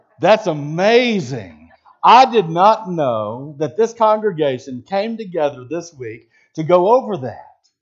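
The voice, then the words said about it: Sarcastic delivery. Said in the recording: “if sarcasm was a spiritual gift, boy, I'd be blessed at it. Because I'm going to be real sarcastic ... I'm being sarcastic”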